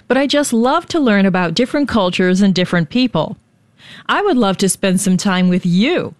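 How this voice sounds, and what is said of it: American accent. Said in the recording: “As you can probably tell by my voice and accent, I'm an American”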